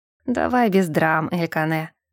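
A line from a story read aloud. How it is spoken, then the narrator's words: Through gritted teeth. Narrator (Russian): процедил Тессиль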